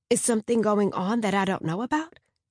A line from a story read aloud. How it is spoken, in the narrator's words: I asked